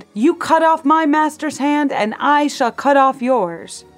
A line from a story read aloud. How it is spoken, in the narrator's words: He shouted